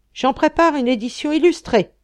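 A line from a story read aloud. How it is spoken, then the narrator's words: Exclaimed. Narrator (French): s'écria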